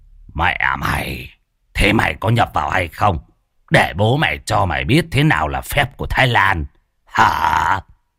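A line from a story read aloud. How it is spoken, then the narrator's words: Harsh growl. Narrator (Vietnamese): Môn Phọt gằn giọng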